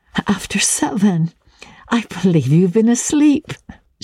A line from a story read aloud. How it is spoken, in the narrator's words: she laughed